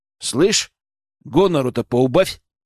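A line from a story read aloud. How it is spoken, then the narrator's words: Growled. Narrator (Russian): рыкнул я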